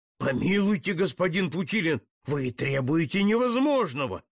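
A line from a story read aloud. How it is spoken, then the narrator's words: Frightened exclamation. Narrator (Russian): воскликнул испуганно граф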